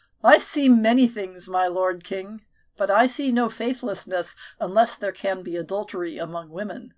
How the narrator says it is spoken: When Merlin could contain his laughter, he answered

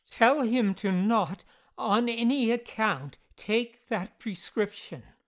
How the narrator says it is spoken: Marsden gasped

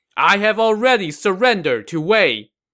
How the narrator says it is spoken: From atop the walls, his second-in-command Jiang Shu shouted

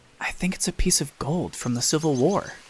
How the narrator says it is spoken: I whispered

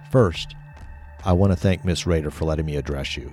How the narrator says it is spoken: said

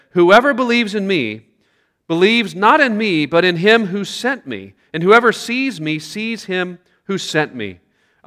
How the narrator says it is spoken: Jesus cried out and said

